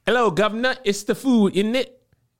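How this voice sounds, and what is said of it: Attempted British accent. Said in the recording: “help my British accent be better”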